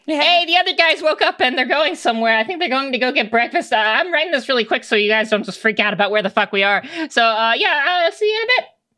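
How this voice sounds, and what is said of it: High-pitched Rast Marco impression. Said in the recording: “in that voice ... good Rast impression. ... I didn't know your voice can get that high.”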